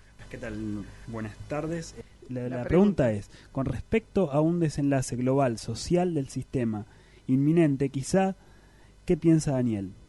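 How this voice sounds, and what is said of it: Announcer-like broadcast voice. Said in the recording (Spanish): “tiene voz de locutor”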